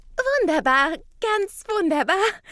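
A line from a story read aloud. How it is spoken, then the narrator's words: Laughing. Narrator (German): kommentiert Rita lachend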